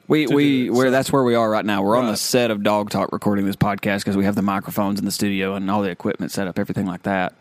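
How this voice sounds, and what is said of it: Southern American accent. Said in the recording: “if you can tell by the way, yes, we are from the South... By our accent.”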